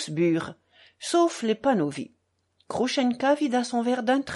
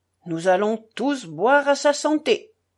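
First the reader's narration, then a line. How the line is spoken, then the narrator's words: Shouted. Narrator (French): cria Mitya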